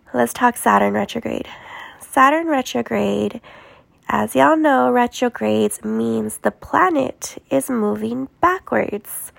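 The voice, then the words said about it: Weak sick voice with sniffling. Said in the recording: “I have a little bit of my voice back and I'm not coughing up a storm... I'm sorry my voice is off and if you hear me sniffling”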